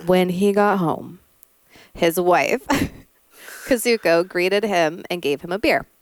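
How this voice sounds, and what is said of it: Deep radio narrator voice. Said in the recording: “Voice deeper? ... I'm going to use my radio voice. ... Or my, what's it called voice? Forensic Files.”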